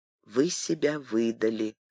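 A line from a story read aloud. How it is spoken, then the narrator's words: Quiet queen. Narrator (Russian): тихо сказала королева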